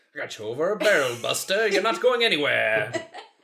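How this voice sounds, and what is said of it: Cartoony transatlantic accent impression. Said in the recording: “transatlantic accent where it's very, like... It's cartoony.”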